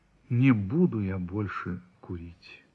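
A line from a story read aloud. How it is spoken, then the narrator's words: Dejected voice. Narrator (Russian): сказал упавшим голосом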